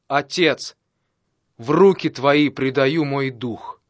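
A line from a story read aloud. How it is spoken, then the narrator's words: Loud exclamation. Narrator (Russian): Иисус громким голосом воскликнул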